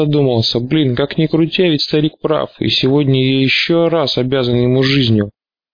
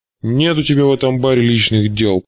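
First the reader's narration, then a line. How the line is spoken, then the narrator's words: Growled. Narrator (Russian): прорычал он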